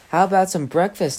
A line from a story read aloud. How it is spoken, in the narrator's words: Adeline asked